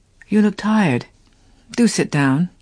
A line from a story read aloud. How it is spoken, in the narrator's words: he repeated gently